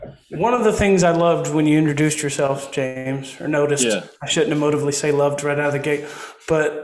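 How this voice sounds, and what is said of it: Usual voice. Nothing is said of it.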